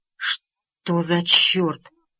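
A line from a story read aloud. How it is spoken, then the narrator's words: Muttered. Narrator (Russian): пробормотал Чейз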